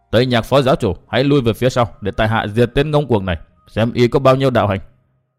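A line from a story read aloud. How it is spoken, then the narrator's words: Ashamed, angry, sneering shout. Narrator (Vietnamese): Chu Khuyết hổ thẹn quá hóa tức giận, liền cười nhạt hai tiếng quát lớn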